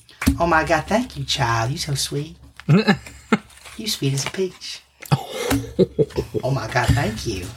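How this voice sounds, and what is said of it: Put-on Southern accent. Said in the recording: “It's good thing I know how to do a southern accent.”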